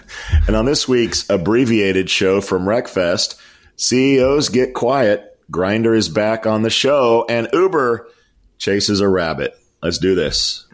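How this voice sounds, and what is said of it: Hoarse, strained voice. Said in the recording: “my voice is torn up ... shouting over everybody”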